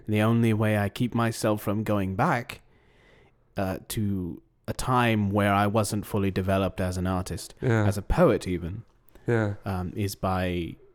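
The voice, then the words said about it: Slight London-sounding accent. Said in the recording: “So you're from London. You have a bit of an accent.”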